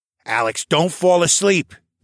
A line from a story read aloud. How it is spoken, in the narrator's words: Tovish barked